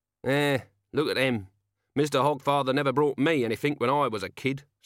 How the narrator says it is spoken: said Corporal Nobbs, eyeing the children gloomily

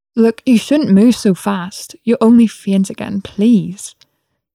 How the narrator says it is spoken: pleaded

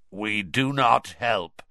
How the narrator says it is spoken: he said, in a harsh, croaky voice

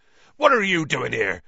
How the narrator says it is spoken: said Hagrid furiously

